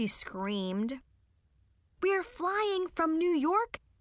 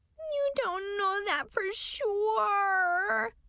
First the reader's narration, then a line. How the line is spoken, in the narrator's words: she whined